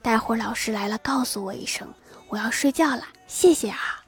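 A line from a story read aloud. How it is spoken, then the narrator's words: Hushed whisper. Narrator (Chinese): 班草压低声音悄悄地说道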